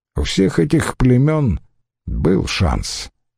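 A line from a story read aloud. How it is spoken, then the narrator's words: Calm objection. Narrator (Russian): возразил он спокойно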